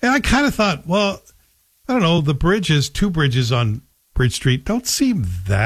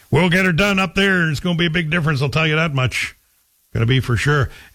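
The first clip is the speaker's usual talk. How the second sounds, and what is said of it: Put-on local small-town accent. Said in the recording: “I'm doing my Manitic accent because that's how I remember it being told to me.”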